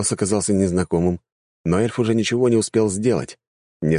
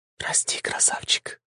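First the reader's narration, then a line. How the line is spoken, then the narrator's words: Insinuating whisper. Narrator (Russian): вкрадчивый шепот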